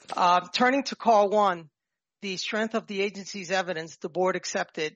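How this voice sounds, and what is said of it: New York accent. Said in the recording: “excuse my New York accent.”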